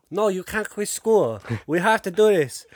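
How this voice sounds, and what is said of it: Exaggerated put-on Asian accent. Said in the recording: “That was a terrible Asian impression”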